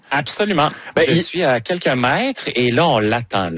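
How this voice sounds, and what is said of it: Put-on French accent. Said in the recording (French): “Je commence à prendre un petit peu l'accent”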